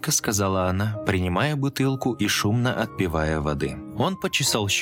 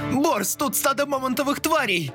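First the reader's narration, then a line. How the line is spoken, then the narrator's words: Adventurer shouting. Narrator (Russian): крикнул авантюрист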